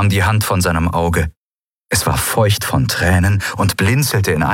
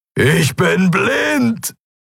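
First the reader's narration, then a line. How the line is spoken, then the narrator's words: Bellowing. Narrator (German): brüllte er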